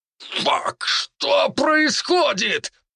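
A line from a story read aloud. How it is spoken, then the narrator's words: Man shouting in alarm. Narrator (Russian): выкрикнул чернокожий мужчина, когда гибкие ветви шиповника начали опутывать людей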